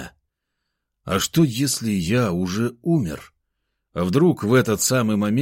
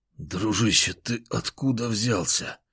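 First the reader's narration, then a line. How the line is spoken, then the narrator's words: Hoarse rasp. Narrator (Russian): прохрипел я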